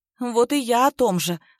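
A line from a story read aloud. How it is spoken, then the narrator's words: Sighing. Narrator (Russian): Олеся вздохнула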